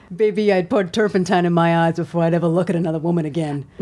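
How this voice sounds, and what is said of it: Impression of the character Eldon. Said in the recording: “can I say what Eldon says? ... your impression”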